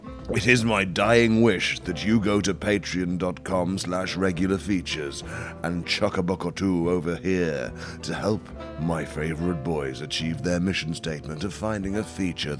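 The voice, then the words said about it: Rich, phlegmy voice from a cough. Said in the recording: “sexy voice ... I think I'm finally getting over this cough now ... enough phlegm in my sinuses to produce this rich, mellifluous warble”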